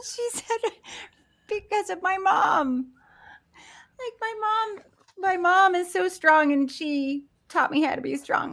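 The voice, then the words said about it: Emotional voice cracking, near tears. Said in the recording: “my voice cracking? ... pull yourself together”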